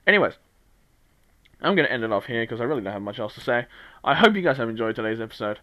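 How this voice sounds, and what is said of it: Strained, fading voice. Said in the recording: “My voice is slowly dying ... if my voice starts dying throughout those episodes”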